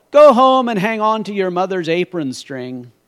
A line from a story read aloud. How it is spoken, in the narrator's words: they yelled